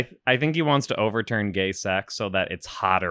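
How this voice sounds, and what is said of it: Usual voice. Nothing is said of it.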